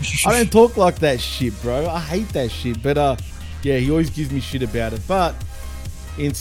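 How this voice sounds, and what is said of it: Usual voice. Nothing is said of it.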